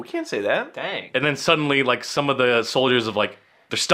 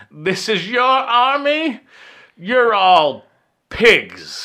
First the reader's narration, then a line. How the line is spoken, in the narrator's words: just screaming like